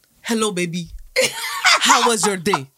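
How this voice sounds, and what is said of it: Poor put-on Nigerian accent. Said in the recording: “She don't even do a good Nigerian accent ... not how Nigerian women sound.”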